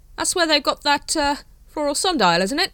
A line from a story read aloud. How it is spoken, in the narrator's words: said the captain desperately